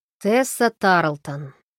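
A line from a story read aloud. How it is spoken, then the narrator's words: Mocking reply. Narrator (Russian): насмешливо ответил Фрэнк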